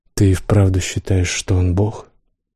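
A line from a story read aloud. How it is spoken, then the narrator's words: Sighing. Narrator (Russian): Холланд вздохнул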